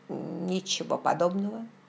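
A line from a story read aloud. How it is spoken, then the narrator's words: Haughty mutter. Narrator (Russian): надменно пробормотал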